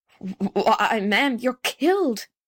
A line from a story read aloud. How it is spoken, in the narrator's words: he gasped